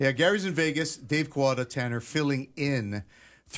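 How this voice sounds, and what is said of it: Usual voice. Nothing is said of it.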